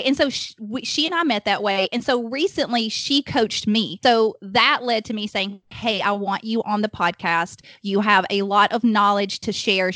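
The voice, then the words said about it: Alabama Southern American accent. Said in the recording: “we're in Alabama, if my accent does not already give that away”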